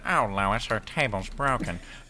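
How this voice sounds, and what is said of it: Peter Griffin impression. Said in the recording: “Best Griffin impression. ... It wasn't a bad Peter.”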